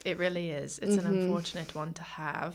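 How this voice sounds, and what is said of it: Bad put-on British accent. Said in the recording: “I've just shifted into my really crappy UK accent.”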